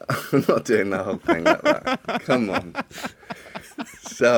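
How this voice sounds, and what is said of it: Usual voice. Nothing is said of it.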